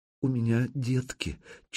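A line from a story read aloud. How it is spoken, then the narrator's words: Barely audible mumble. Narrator (Russian): чуть слышно пробормотала женщина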